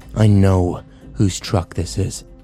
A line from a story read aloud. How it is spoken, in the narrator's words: Kyle growled